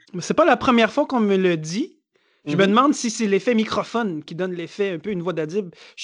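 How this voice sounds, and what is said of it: Speaks with a noticeable accent. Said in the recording (French): “en autant que mon accent soit compréhensible”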